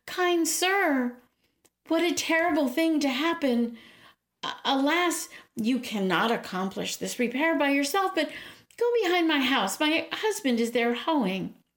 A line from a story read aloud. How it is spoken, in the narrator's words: The ogress called out